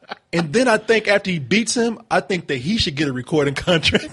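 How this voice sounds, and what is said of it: Usual voice. Nothing is said of it.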